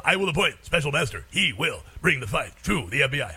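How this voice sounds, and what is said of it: Mock Japanese B-movie dub voice. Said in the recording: “Sounds like a Japanese B-movie, right, doesn't it? ... when I see that, I have to say it that way.”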